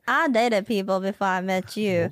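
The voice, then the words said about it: Put-on Southern belle accent. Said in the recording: “What accent is that? ... What are you, a Southern Belle? ... You sound like you have white lace gloves.”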